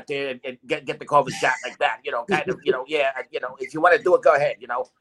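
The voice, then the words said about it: Mafioso-style character voice. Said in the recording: “I'm going to use that mafioso voice because I'm talking to Italian guys right now”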